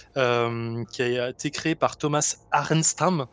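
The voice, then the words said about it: Mock Swedish pronunciation. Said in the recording (French): “Mais pourquoi c'est quoi cet accent? ... C'est suédois parce que c'est un suédois en fait”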